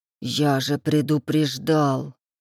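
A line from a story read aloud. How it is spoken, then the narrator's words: Through gritted teeth. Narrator (Russian): Процедил тот сквозь зубы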